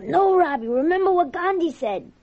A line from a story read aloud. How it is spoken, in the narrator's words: yell